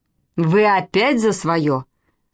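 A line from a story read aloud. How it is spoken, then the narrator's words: Stern, menacing. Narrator (Russian): Грозно нахмурилась Вероника Владимировна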